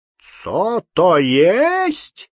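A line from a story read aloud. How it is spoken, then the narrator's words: Roared. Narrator (Russian): взревел поляк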